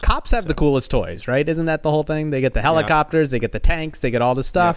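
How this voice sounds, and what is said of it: Imitates another person's voice. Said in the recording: “that was my Russillo impression”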